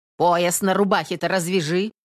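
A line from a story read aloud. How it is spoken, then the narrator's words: Rough. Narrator (Russian): грубо молвила домна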